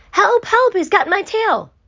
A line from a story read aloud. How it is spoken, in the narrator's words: Paddler was splashing and screaming